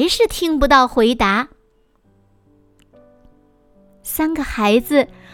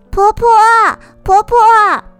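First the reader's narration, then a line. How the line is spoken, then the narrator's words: Calling out. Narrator (Chinese): 阿桃也喊了一声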